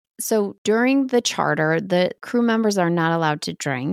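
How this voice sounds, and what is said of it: Usual voice. Nothing is said of it.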